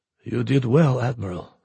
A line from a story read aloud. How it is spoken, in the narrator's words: Antonov said quietly